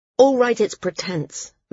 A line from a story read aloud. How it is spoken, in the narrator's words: Maris said harshly